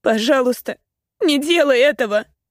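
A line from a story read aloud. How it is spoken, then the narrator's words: Sobbing in pain. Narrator (Russian): Всхлипываю, потому что его ладонь словно больно стискивает мои волосы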